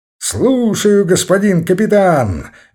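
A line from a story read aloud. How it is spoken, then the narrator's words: Cheerful bark. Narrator (Russian): весело гаркнул Лбов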